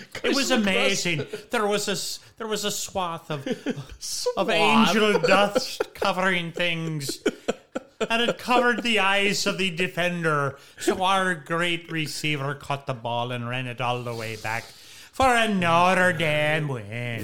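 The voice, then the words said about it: Rough put-on Irish accent. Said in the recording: “that's a little rough Irish accent”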